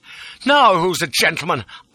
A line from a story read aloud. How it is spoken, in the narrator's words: I shouted